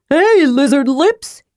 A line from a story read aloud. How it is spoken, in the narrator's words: yelled Tasselhoff